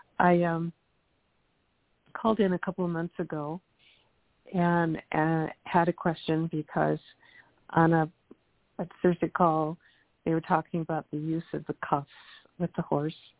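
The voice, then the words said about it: Froggy, hoarse voice. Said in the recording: “Excuse my voice, I'm kind of froggy this morning.”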